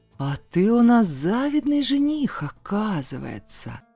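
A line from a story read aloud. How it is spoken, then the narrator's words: Drawl. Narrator (Russian): протянул Тахир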